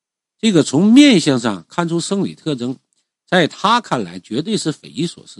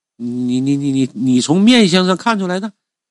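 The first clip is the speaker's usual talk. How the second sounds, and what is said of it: Trembling, stammering voice. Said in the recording (Chinese): “用颤抖的声音说”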